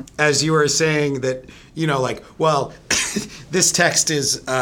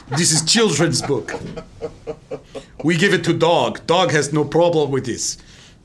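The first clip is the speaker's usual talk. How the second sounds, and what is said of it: Mock German accent. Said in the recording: “that was a German accent.”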